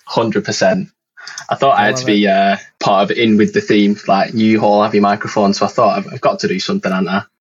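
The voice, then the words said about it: Northern English accent. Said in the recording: “I love your accent... I'm up in like the north of England... a town called Burnley. But rather than it being like L-E-Y, we pronounce it L-E-H”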